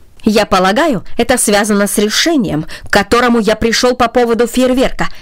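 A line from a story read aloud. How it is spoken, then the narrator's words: Said sharply. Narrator (Russian): резко сказал он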